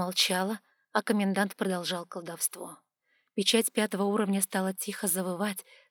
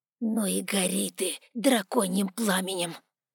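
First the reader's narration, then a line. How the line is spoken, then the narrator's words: Angry hiss. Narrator (Russian): злобно прошипел он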